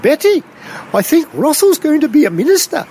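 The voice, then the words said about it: English (pommy) accent. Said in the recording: “in her pommy accent”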